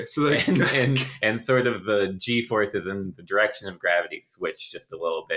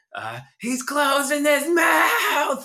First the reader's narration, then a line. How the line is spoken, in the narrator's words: you hear a yell from far away, and you hear